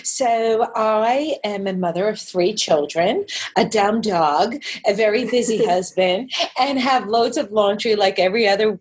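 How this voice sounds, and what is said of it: Strong New York accent. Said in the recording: “my New York accent coming back with a vengeance”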